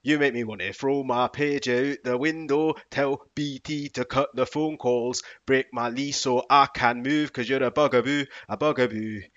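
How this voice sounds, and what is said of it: Put-on Scottish accent while rapping. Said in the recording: “how would that sound like in a Scottish man's accent”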